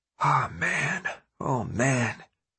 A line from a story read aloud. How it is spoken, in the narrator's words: Minho whispered